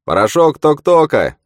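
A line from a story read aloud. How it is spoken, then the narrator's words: Shout. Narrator (Russian): прокричал ей профессор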